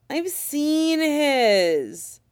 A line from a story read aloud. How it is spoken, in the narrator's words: Willie whines in protest